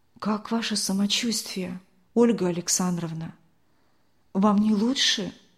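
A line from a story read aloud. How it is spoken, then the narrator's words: Quiet question. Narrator (Russian): тихо спросила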